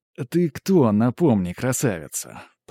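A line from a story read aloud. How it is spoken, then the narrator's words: Admiring drawl. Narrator (Russian): протянул я, невольно любуясь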